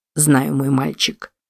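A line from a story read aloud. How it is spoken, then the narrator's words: Triumphant mutter. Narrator (Russian): пробормотал Стэнли, ощущая себя победителем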